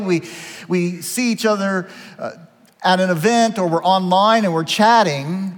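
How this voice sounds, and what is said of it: Slight Southeast Ohio twang. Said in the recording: “tone of voice, the way I say words, I blame my parents. I'm from Southeast Ohio. I have a little bit of that twang.”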